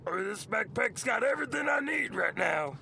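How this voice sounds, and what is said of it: Gravelly pirate character voice. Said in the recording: “why did you do a Louis Armstrong voice for that? ... It's a pirate voice. ... That was a nice pirate voice.”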